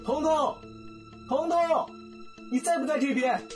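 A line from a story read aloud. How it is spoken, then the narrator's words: Urgent shout from outside. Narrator (Chinese): 窗外传来了急切的喊声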